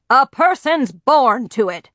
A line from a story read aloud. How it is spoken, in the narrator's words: grandfather boomed